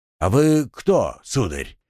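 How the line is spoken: Deep bass voice. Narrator (Russian): густым басом спросил он

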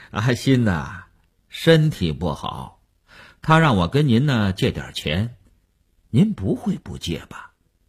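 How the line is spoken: Chuckling, blunt, over phone. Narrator (Chinese): 那个人在电话里嘿嘿地笑了，直截了当地说

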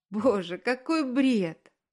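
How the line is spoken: Laughing. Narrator (Russian): засмеялась Аня

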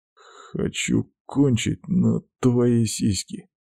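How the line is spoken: Muttered. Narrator (Russian): бормочу

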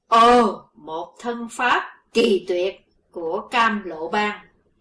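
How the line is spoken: Panicked old man's cry. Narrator (Vietnamese): lão áo tía hoảng hốt kêu lên

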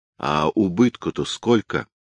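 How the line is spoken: Plain. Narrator (Russian): спросила Анна

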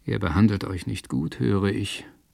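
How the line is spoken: Said quietly. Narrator (German): sagte Sir William leise

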